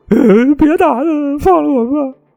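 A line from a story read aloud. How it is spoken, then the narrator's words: Girl crying, begging. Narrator (Chinese): 这女孩就开始哭，一边哭呢一边求饶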